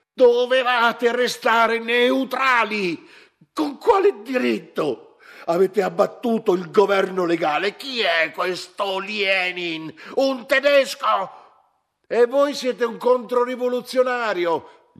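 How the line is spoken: Shout. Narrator (Italian): gli gridò

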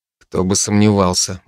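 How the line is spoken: Irritated grumble. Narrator (Russian): буркнул я с раздражением

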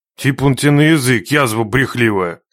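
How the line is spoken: Rude interruption. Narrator (Russian): Грубо прервал девку Нечай

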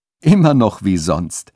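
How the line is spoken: Laughing. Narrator (German): sagte Köstein lachend

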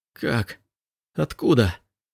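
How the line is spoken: Choked, barely audible whisper. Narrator (Russian): Голос Элиаса прозвучал придушенным шепотом, почти неслышным

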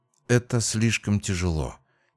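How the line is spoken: Quiet. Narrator (Russian): тихо произнесла хранительница рекреационной зоны

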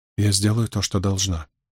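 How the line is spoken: Firm but quiet. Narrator (Russian): твердо, но также тихо заявила Суан

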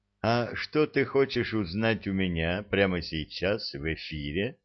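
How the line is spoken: Sigh, growl, then flat voice. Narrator (Russian): Тополь шумно вздохнул, потом тихонько зарычал и, наконец, совершенно бесцветным голосом полюбопытствовал

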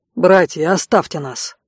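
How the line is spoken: Commanding, authoritative tone. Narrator (Russian): приказал таким властным тоном

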